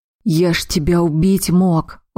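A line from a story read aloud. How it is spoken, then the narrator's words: Tired. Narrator (Russian): устало сказал Хайлар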